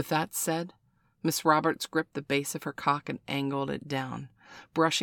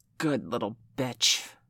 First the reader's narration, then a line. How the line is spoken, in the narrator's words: Miss Roberts hissed